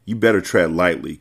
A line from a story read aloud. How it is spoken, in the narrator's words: Carter said in a serious tone